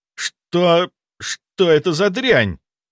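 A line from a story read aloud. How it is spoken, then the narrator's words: Forced out. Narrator (Russian): выдавил Кирилл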